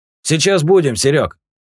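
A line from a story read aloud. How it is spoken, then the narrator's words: Shouted. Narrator (Russian): крикнул Юджин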